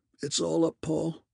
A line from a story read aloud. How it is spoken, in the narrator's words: he groans